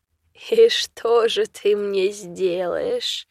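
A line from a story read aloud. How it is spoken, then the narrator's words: Menacing laugh. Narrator (Russian): рассмеялся по-страшному беда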